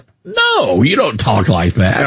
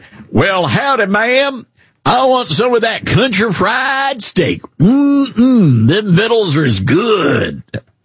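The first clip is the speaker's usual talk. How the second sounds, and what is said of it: Exaggerated Southern country accent. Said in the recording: “I have a Southern accent ... you're like, yee-hoo ... You're not that Southern ... only the Cracker Barrel employees can talk like that”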